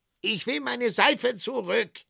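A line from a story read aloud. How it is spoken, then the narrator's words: Man calling out. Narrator (German): rief der Seifenverkäufer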